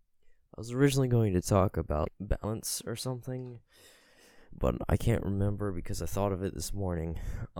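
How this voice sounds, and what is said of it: Congested, blocked-nose voice. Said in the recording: “a little bit of a sinus issue, because my nose is a little clogged, so maybe my voice sounds a little off”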